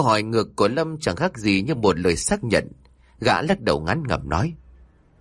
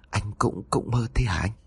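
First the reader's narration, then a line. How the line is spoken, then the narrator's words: Stammering. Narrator (Vietnamese): Lâm khựng lại, gã ấp úng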